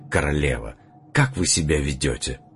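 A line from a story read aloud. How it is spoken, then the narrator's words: Reproachful whisper. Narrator (Russian): Остин осуждающе прошептал даже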